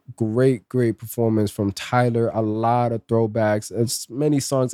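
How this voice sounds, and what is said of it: Hoarse, strained, fading voice. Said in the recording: “I'm losing my voice... I got sick a little bit before the weekend started, and it's been a struggle just trying to speak. My throat's just getting dry.”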